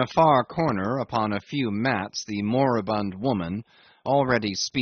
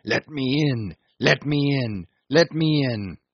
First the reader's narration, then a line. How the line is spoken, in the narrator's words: to shout huskily